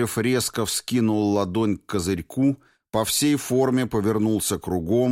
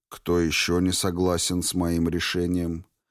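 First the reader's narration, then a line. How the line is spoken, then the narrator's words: Even-voiced inquiry. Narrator (Russian): Ровным голосом осведомился две мишени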